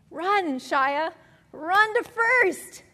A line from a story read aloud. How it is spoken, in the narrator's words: shouted Shia's teammates